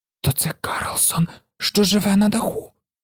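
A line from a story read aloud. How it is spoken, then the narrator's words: Whisper. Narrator (Ukrainian): прошепотіла Гуніла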